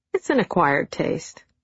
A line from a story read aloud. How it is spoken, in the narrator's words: I remarked, giggling at his discomfort